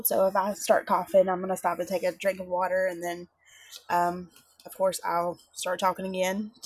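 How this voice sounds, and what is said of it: Voice sounds like a cold. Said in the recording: “I have a cold”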